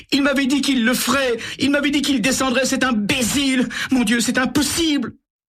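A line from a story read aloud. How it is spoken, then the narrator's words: Sobbing. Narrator (French): Elle éclate en sanglots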